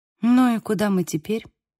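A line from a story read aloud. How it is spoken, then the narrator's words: Glum response. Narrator (Russian): Отреагировала я уныло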